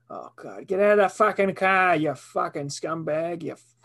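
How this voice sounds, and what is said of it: Put-on Boston accent. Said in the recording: “give me a Boston. I want to hear your Boston. ... Your Boston. ... Boston accent.”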